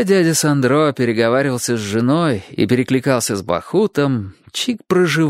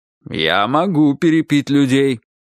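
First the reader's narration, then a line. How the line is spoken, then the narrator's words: Stern remark. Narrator (Russian): строго заметил ей дядя Сандро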